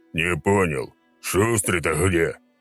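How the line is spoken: Low droning voice. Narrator (Russian): прогудел 306-й

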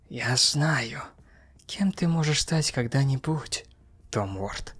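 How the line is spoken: Hissing. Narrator (Russian): прошипела она

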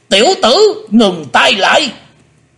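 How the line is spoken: Sharp shout. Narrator (Vietnamese): Hải Âu quái khách quát lên

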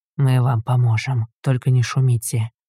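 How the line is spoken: Whisper. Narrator (Russian): прошептал ему Арк

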